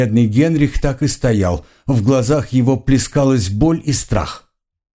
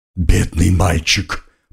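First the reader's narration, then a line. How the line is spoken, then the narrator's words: Growling old uncle. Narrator (Russian): прорычал дядюшка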